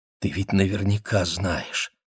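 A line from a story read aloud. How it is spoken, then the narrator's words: Whisper. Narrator (Russian): прошептала она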